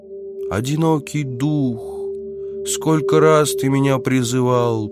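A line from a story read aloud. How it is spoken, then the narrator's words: Sad young man's voice. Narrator (Russian): печально произнес высокий юноша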